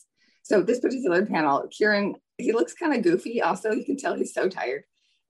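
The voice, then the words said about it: Raspy, damaged voice. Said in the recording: “my voice is really raspy because my vocal cords have gone through a lot of damage ... bear with my raspiness”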